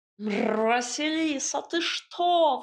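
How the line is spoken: Howling cat. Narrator (Russian): взвыл кот

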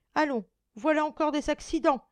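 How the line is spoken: Exclaimed. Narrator (French): s'écria Madame de Réan

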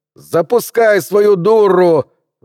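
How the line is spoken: Deafening yell. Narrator (Russian): заорал он так, что голова чуть не раскололась надвое

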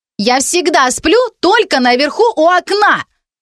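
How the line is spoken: Young woman shouting. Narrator (Russian): кричала почти взрослая темноволосая девушка

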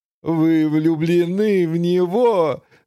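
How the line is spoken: Throaty laughter. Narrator (Russian): засмеялась грудным смехом мадам Тиффани

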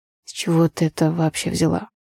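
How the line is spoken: Hoarse question. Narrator (Russian): хриплым голосом спросил Андрей

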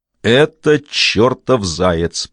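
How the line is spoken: Old woman's growl. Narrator (Russian): прорычала старая поэтесса

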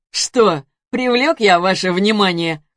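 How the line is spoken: Chuckling. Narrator (Russian): хохотнул

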